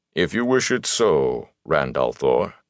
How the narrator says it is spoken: Loyal said stiffly

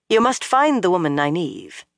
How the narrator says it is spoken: Leandrin said sharply

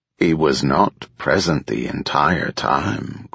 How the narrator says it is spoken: Krallan said smoothly

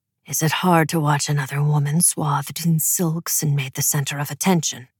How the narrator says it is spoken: He asked, his voice low and uncomfortably intimate

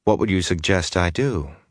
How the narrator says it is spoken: the Aes Sedai said dryly

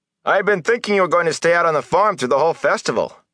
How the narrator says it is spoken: Perrin Abara shouted at Rand over the clamor

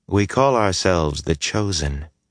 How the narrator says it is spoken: she said calmly

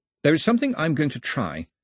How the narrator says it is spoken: he said stiffly

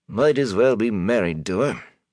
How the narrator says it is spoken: Master Gill sighed

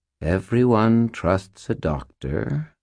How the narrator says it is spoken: purred Butters, in a tone of voice that Butters would never have used

